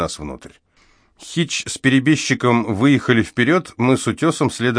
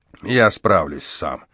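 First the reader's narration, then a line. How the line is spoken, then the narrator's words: Grumbling. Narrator (Russian): проворчал он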